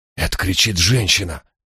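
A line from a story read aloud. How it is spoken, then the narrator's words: Whisper. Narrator (Russian): прошептал я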